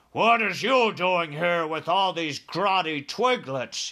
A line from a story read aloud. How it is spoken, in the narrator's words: he bellowed